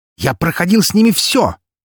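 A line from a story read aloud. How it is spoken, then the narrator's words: Emotional bark. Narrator (Russian): рявкнул Меркулов, на эмоциях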